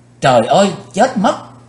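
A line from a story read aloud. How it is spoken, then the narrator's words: Panicked scream. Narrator (Vietnamese): Quỳnh Dao nàng chợt hoảng hốt hét lên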